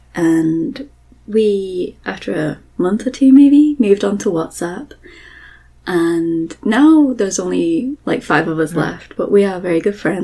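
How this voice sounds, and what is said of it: British accent. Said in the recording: “I'm British, and they loved my accent ... Americans like my accent”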